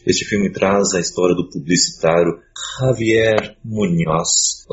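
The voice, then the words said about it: Put-on Spanish accent. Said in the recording (Portuguese): “gostaram do meu sotaque?”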